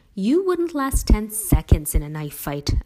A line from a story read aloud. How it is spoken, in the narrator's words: Allie exclaimed